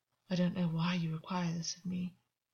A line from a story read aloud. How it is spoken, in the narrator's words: August muttered under his breath